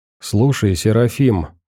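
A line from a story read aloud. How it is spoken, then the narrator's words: Plain. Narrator (Russian): спросил Веник товарища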